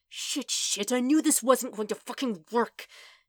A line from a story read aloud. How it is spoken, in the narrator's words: he hisses to himself